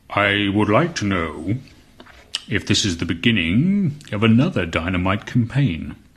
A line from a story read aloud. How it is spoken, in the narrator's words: he asked at once, in a deep, very smooth voice